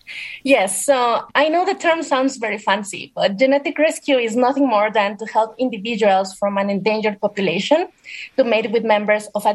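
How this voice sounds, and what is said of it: Speaks English with an accent. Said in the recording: “your beautiful accent”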